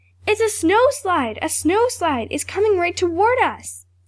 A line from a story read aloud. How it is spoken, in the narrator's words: cried